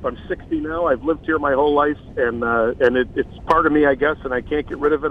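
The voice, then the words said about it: Chicago accent. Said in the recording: “we hear that great Chicago accent”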